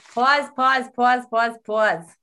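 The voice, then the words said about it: Exaggerated East Coast accent. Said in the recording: “That's my East Coast accent.”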